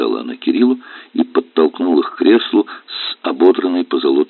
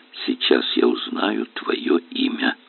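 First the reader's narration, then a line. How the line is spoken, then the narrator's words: Whisper. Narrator (Russian): Кирилл прошептал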